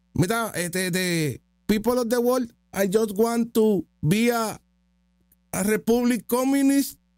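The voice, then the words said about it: Put-on accent speaking English. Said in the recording (Spanish): “se me olvidó que era acento”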